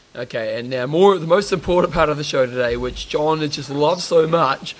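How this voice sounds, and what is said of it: Put-on Australian accent. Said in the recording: “I'm just doing my Australian accent, doing my Aussie accent.”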